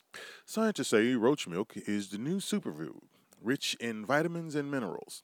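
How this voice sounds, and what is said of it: News reporter voice. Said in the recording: “put on my reporter voice”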